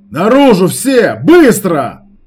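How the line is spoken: Shout. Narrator (Russian): крикнул

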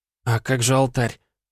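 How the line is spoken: Confused mutter, woman. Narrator (Russian): растерянно пробормотала женщина

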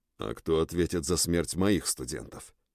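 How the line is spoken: Through clenched teeth. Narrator (Russian): процедил Стронг

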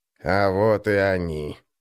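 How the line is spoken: Muffled voice. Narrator (Russian): глухим голосом сказал Гнуб

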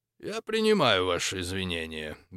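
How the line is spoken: Indifferent tone. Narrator (Russian): безразличным тоном ответил Фалько

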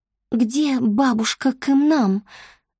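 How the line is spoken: Trembling female question. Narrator (Russian): дрожащим голосом переспросила Чони

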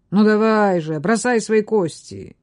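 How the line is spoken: Growl. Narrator (Russian): Абдул прорычал

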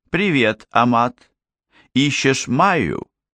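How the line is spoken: Cheerful, too loud question. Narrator (Russian): Мира весело слишком громко спросила

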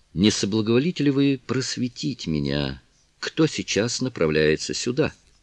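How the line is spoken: Plain. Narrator (Russian): спросил лорд Мельбурн

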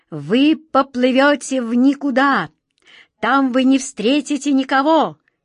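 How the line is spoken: Captain shouting. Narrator (Russian): крикнул капитан Жан

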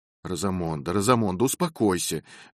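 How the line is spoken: Calm. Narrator (Russian): вмешался мистер Фрэнклинд спокойным голосом

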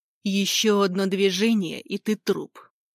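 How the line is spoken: Growl. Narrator (Russian): прорычал Скотт

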